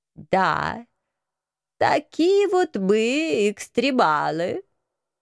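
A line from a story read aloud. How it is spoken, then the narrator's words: Nasal agreement. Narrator (Russian): гнусаво поддержал профессор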